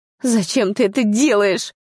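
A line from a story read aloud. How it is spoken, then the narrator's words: Angry tearful question. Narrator (Russian): спросила зло, смахивая слезу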